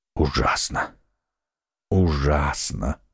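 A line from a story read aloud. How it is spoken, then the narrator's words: Whispering. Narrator (Russian): шептал Атос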